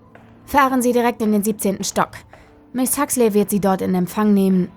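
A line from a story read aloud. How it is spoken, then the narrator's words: Sharp. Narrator (German): sagte er scharf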